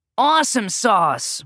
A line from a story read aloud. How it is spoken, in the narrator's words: we both yelled